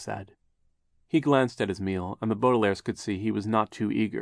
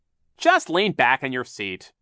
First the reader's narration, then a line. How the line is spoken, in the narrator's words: Captain Sham said sharply